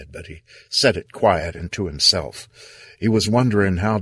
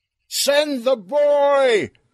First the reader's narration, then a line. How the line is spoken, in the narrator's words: Earl yelled